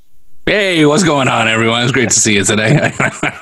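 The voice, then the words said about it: Gravelly, slightly sinister radio voice. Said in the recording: “I love when you put that voice on. It's kind of creepy ... radio voice ... it's got that gravel to it ... it's like, hey, I'm a little bit sinister”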